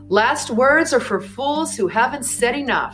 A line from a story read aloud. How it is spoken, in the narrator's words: Karl Marx shouted